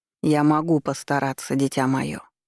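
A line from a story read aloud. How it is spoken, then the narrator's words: Gentle. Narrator (Russian): мягко отозвался Архимаг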